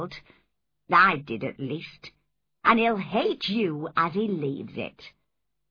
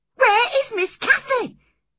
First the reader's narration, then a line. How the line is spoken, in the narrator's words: I cried wildly